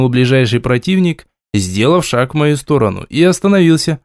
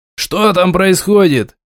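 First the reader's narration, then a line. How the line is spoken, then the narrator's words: Shouted toward door. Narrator (Russian): крикнул наемник в сторону входной двери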